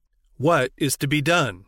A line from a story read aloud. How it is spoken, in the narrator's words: he exclaimed